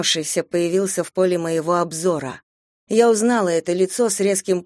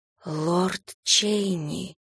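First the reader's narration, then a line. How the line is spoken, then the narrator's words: Whisper. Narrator (Russian): прошептала я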